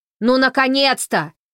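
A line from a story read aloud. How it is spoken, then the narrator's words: Shouting. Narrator (Russian): закричал он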